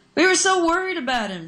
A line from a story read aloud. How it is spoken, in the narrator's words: yelled